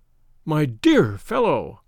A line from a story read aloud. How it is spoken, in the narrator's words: I cried